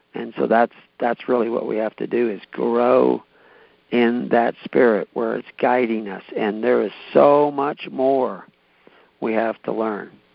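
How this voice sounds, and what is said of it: Strained, fading hoarse voice. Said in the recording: “I'm starting to lose my voice”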